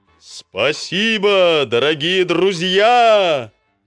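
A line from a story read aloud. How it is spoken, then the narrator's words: Shouted. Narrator (Russian): Крикнул он журавлям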